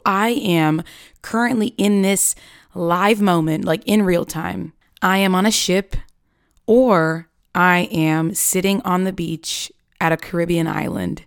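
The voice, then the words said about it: Higher-pitched than usual voice. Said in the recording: “my voice is a bit more high-pitched than usual”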